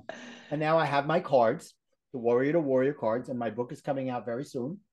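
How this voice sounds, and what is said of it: Brooklyn accent. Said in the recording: “my Brooklyn accent screws up warrior to warrior”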